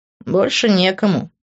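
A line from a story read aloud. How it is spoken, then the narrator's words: Wry snort. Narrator (Russian): хмыкнул он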